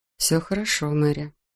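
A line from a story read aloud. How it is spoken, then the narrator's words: Quiet. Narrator (Russian): негромко произнес голос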